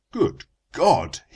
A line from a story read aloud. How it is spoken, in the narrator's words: he cried